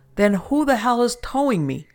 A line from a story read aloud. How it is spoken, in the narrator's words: I was losing it and shouted at my boss